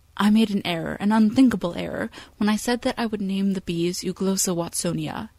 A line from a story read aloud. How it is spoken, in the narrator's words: he says